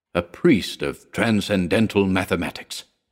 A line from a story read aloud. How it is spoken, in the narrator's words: he murmured reverently